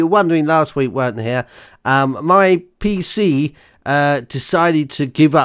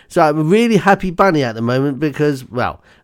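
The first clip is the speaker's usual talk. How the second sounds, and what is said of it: Sarcastic tone. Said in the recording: “that was sarcasm... sarky bunny”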